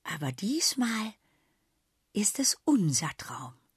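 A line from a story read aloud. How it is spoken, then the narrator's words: Said quietly. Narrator (German): sagte Sausi leise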